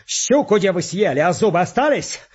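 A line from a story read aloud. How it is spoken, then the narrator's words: Defiant shout before execution. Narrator (Russian): Фалалеев, стрелец, как повели его вешать, крикнул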